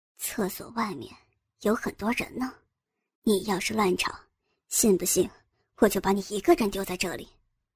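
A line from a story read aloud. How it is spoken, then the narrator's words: Quiet voice. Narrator (Chinese): 郑有兵小声说道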